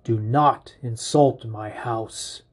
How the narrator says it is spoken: growls

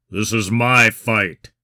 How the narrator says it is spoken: Kind growled

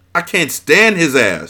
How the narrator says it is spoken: Shiva hollered out

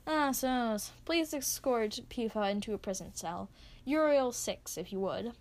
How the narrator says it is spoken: Boss instructs calmly

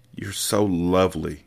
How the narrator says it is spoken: whispered

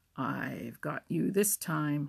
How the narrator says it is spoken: snarled

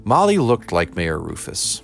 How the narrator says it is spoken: said Cheswick

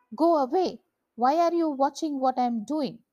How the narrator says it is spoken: She shouted

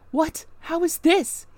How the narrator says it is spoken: he exclaimed hastily

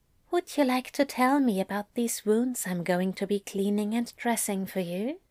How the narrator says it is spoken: Aziraphale asked, his voice light with possibly a hint of teasing

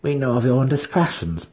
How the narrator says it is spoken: Brisa snapped, suddenly cold

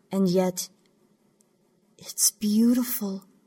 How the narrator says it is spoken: Zakhidl said, her voice catching and quivering in her throat

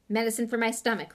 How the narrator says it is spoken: Ron grunted

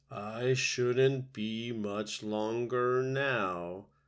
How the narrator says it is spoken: said a smiling turtle

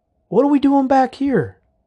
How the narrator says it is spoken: Coy called out

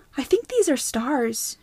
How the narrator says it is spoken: breathed

